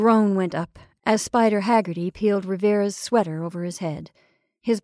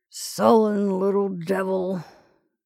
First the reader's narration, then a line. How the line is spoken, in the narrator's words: Roberts muttered